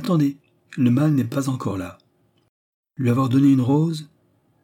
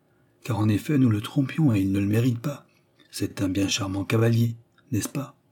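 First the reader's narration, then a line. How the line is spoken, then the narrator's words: Said quietly. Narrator (French): dit Oliva tout bas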